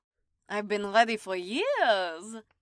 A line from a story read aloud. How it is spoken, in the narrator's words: Darya chuckled